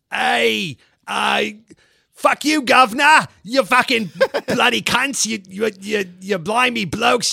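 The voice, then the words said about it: Bad Cockney accent, Australian-tinged. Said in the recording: “Let's try to do a really horrible Cockney accent ... I love the Australian that you imbue in that”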